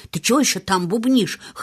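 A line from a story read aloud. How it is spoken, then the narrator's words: Snorting. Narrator (Russian): хмыкнул Бен Уэзерстаф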